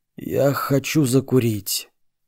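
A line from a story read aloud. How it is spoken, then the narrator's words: Wild, unsure boss. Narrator (Russian): босс дико и неуверенно произнес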